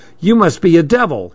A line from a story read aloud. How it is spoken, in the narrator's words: he cried out